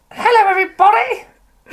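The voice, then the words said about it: Theatrical character voice. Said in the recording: “King Minos, do that voice.”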